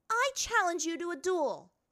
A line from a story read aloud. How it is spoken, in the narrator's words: bellowed